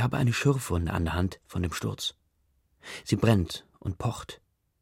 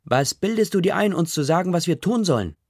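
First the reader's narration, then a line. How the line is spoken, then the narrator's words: Woman shouting back. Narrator (German): schreit eine Frau zurück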